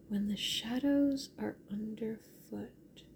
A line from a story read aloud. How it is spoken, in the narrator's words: she murmured to herself